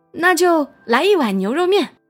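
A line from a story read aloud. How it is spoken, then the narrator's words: Shouting. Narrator (Chinese): 大壮转身喊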